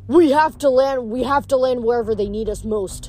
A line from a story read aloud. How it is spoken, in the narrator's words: I muttered